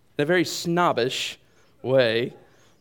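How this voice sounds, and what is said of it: Put-on British accent. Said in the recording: “I don't know why I had to have a British accent with that”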